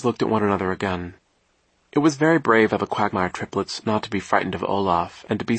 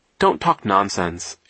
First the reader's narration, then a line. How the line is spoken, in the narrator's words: Isadora said firmly